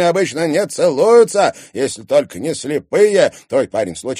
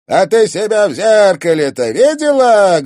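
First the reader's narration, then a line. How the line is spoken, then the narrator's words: Loud laughter. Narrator (Russian): громко расхохотался Антон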